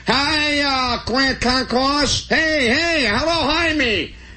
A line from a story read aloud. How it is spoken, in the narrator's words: holler